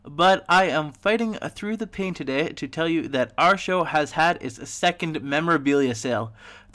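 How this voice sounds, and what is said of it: Sick-sounding voice. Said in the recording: “As you probably can tell from my voice during this podcast, and my voice now, I am sick.”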